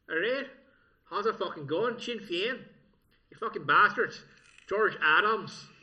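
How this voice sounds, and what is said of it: Put-on Northern Irish accent. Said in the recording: “a pretty fucking good Northern Irish accent ... That sounds pretty fucking good”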